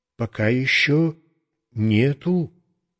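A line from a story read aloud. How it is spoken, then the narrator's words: Plain. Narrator (Russian): ответил я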